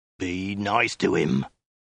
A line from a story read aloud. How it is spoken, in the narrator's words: the Mongol snarled